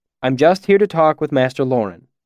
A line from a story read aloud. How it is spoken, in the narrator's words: I said quickly